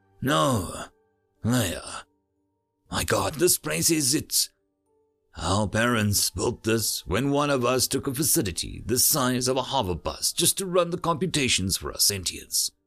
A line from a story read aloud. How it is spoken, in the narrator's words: Samuel said, his voice awed